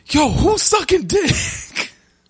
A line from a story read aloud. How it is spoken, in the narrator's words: somebody yell as loud as possible